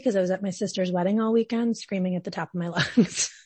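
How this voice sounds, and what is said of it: Raspy, hoarse voice. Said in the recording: “my voice is a little raspy ... raspily”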